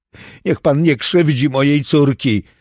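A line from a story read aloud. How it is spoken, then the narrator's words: Crying shout. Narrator (Polish): krzyczała przez łzy Beata Milton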